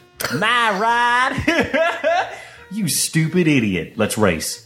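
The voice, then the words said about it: Mock southern accent. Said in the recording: “mocking him in a southern accent.”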